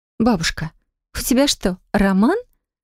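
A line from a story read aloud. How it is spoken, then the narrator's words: Incredulous question. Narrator (Russian): спросила она неверящим голосом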